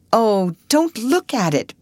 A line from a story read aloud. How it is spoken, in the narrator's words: begged, covering her face with her hands